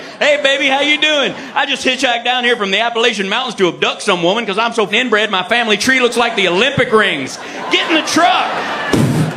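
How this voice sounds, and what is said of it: Exaggerated male Southern US accent. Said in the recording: “Dude with a southern accent”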